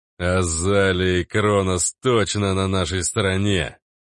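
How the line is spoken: Booming, then weighty. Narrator (Russian): прогудел тот, добавил веско

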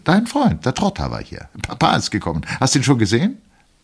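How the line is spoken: Chirping voice. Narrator (German): sagte mit zwitschernder Stimme

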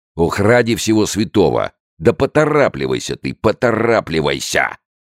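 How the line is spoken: Yell. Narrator (Russian): завопил начальник полиции

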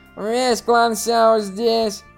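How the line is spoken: Bored, lazy tone. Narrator (Russian): Скучающим тоном, лениво сказал Сяо Кан Юнь

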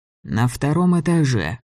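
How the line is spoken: Gloomy. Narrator (Russian): сказал Гриня мрачно

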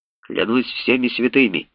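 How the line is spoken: Hoarse exclamation. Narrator (Russian): хрипло воскликнул профессор Томпсон

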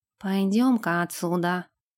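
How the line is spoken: Muttered. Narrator (Russian): пробормотал

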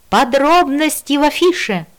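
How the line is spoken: Shouted. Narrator (Russian): крикнула я

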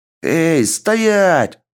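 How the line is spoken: Two voices yelling. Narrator (Russian): заорали две глотки от КПП

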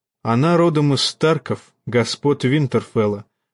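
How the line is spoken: Calm answer. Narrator (Russian): отвечал Нед спокойно

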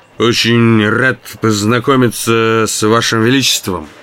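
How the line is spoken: Drunken mumble. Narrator (Russian): пьяным голосом пробормотал я

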